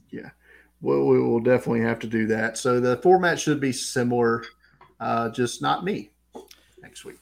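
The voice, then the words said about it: Strong Southern American accent. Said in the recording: “my strong Southern accent that we hear every week”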